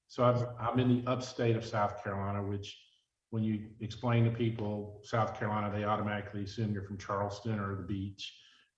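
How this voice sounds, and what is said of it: American Southern accent. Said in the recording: “I've been living in the Southeast primarily since the mid 70s, hence the accent”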